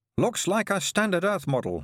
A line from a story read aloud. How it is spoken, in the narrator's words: he said